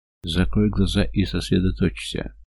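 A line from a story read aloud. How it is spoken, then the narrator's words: Soft, gentle. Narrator (Russian): мягко говорит Теона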